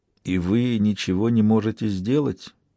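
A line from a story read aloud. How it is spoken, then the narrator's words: Quiet question. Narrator (Russian): тихо спросил Жанги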